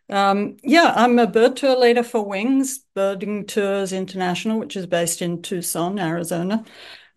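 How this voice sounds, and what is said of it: Australian accent. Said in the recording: “I'm from Australia, as you can tell from my accent.”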